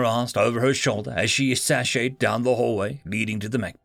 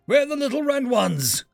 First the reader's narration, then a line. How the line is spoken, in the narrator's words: called out after her